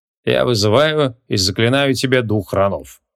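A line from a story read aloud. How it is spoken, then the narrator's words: Bored voice. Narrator (Russian): скучающим голосом произнес креол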